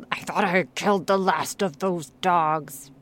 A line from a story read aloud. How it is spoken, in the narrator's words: muttered Grignr in a half apathetic state